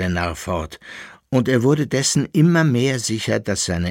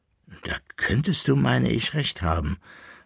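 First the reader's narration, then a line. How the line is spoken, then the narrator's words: Thoughtful, relieved deep sigh. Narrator (German): sagte nachdenklich und mit einem tiefen Seufzer der Erleichterung der Koppelbär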